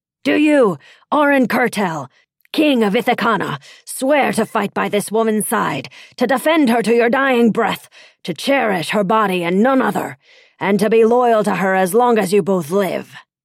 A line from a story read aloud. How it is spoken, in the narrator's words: He shouted